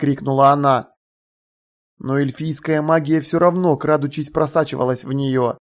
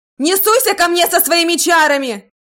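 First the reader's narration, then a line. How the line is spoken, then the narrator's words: Shrieking. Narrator (Russian): завопила Тиффани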